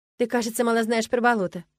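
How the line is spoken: Wry snort. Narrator (Russian): хмыкнула я

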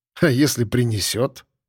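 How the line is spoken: Snorting. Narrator (Russian): хмыкнул я

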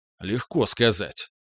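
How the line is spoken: Grumbled. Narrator (Russian): пробурчал я

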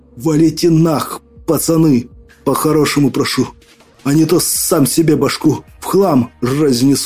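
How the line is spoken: Hissed. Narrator (Russian): прошипел

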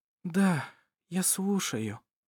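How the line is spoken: Tired mumble. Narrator (Russian): устало пробормотала она

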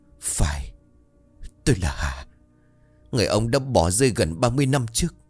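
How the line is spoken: Trembling voice. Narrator (Vietnamese): Bà Hà giọng run rẩy

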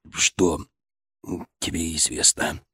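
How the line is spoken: Forced out with difficulty. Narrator (Russian): Волков с трудом выдавил из себя эти слова

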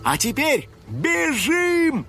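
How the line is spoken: Shout. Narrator (Russian): крикнул Финик

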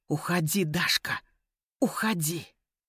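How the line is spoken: Trembling whisper. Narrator (Russian): Ян задрожал сильнее и прошептал

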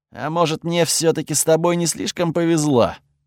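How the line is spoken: Gloomy. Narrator (Russian): мрачно высказался Готфред

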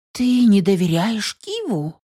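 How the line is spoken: Surprised girl exclaiming. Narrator (Russian): Удивленно воскликнула девушка

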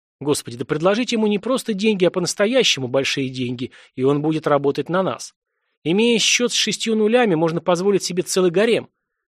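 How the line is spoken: Indignant exclamation. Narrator (Russian): воскликнул один из чиновников, пылая праведным возмущением от недогадливости министра

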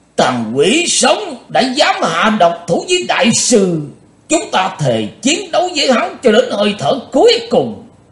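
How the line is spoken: Cold furious roar. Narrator (Vietnamese): Thành Dương đạo nhân mặt lạnh như đất, ông ta gầm to lên

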